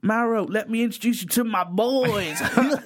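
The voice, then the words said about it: Put-on Texas accent. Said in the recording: “that is ruining my throat, that Texas accent.”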